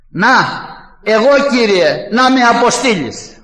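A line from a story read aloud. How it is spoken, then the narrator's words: Shout. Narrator (Greek): φώναξε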